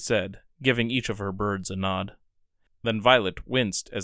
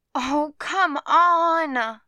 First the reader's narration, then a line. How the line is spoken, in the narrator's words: She groaned